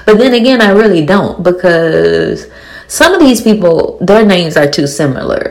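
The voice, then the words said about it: Speaks with a very thick accent. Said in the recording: “I have a very thick accent ... So I apologize for my accent.”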